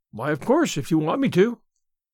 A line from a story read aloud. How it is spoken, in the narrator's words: assented Anne cheerfully